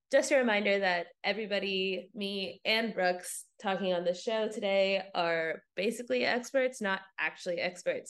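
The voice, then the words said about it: Stuffy, congested voice. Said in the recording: “I am sick in this episode when we recorded this, so my voice is pretty stuffy.”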